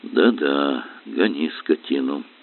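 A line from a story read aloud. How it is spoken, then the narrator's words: Sighing agreement. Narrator (Russian): вздохнув, согласился Горелов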